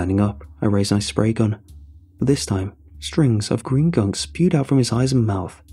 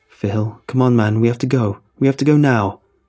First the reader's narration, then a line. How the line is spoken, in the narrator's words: cried out, with panic